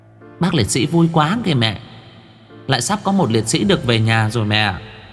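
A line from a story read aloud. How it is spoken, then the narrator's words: Girl giggling. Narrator (Vietnamese): Con bé Mười ngồi cười khúc khích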